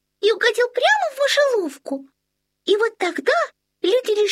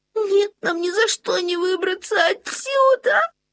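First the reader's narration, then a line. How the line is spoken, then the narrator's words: Whimpering. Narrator (Russian): Захныкали Лотон и Линнея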